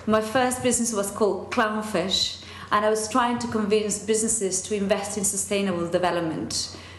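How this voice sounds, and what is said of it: Non-native English accent. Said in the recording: “imagine the dodgy accent.”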